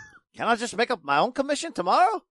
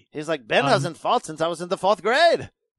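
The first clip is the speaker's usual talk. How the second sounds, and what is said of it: Imitates another person's accent. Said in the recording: “That was an excellent accent. I loved it.”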